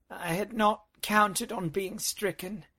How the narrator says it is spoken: she moaned

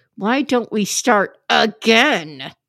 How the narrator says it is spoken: like, through clenched teeth

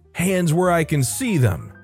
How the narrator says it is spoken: yelled

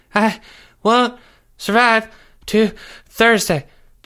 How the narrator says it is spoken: Jeffrey said through gasps for air

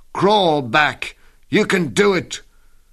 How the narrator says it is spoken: My friends … shout

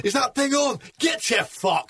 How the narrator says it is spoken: screamed at him

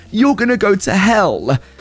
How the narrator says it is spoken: screamed out

